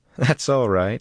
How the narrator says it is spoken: laughed

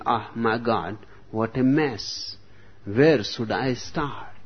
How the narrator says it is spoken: When he saw the poor nun, he exclaimed

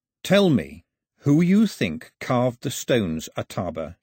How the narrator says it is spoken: he said, keeping his voice calm

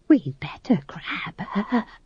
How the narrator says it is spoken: she whispered to McGrath

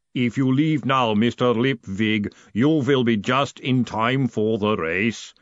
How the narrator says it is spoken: the golem rumbled from the corner

